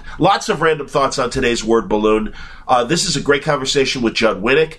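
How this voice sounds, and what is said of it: Sick-sounding voice with Chicago accent. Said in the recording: “a lot of con crud. You can hear it in my voice. Is it me or does my Chicago accent come through more when I have a cold?”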